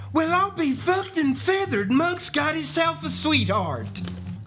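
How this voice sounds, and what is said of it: Imitates another person's voice. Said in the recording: “my Ham impersonation”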